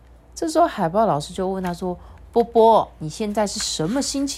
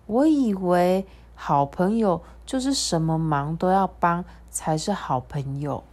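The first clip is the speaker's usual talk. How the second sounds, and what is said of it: Quiet, small soft voice. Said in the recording (Chinese): “小小声的说”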